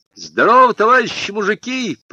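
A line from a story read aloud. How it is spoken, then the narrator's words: Shouted greeting. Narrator (Russian): прокричал Женька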